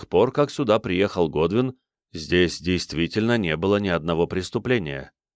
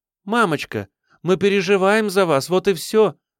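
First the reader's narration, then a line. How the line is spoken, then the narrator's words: Exclamation. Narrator (Russian): воскликнула Хейзел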